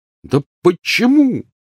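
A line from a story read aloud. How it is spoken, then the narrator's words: Angry exclamation. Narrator (Russian): воскликнул Рон, гневно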